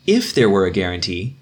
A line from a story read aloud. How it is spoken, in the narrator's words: exclaimed Brother Anselm